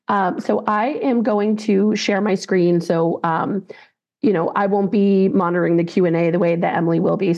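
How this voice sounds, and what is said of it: Scratchy voice from a cold. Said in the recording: “I am getting over a cold, so my voice is a little scratchy”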